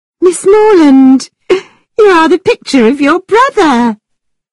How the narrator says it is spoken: the Thorpes cried

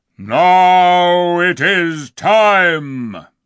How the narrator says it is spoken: roared

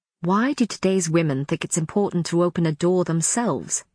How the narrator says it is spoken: He said sharply

